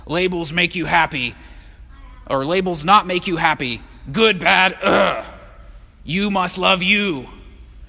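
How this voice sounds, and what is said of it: Zombie character voice. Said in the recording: “That was a good impression, right? You like my zombie impression?”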